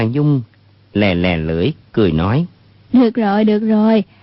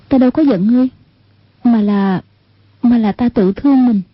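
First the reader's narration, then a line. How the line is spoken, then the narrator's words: Sighing. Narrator (Vietnamese): Một niệm từ thở dài nói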